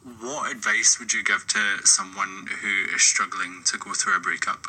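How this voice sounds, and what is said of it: Scottish accent. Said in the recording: “this guy from Scotland with a really hot accent”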